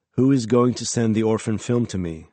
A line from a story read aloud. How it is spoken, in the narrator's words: I said